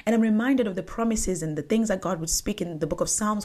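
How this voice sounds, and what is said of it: African accent. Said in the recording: “I might not pronounce it right. ... That's my African accent coming through.”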